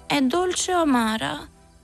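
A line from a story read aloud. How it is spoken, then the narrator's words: Whiny tearful voice. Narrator (Italian): dimandò con voce di piagnisteo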